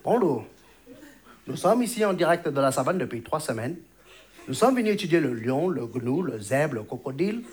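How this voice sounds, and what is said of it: Put-on Chinese accent. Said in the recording (French): “un présentateur chinois ... cet accent”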